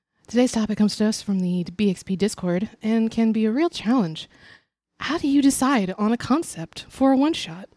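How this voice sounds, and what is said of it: NPR radio announcer voice. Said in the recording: “I'm going to talk like a NPR.”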